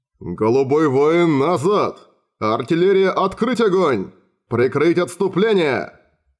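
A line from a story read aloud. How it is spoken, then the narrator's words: Thundering commands. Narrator (Russian): прогремели приказы Лаэмскина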